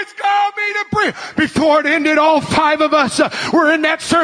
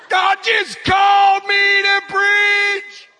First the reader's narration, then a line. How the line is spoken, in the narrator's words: I start bawling